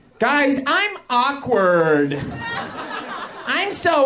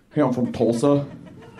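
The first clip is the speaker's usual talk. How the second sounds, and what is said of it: Oklahoma drawl, voice going down. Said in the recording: “the Oklahoma accent is like, it's not like, hi, I'm a hick from Oklahoma ... It's like a draw, like goes down like that”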